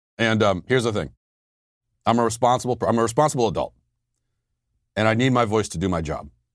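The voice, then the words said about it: Hoarse, strained voice. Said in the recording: “you may be able to tell I've been losing my voice the last couple of days”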